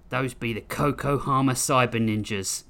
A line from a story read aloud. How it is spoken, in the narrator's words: Grissom growled